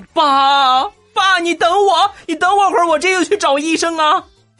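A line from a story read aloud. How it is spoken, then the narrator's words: Tearful shouting. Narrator (Chinese): 声泪俱下，你就喊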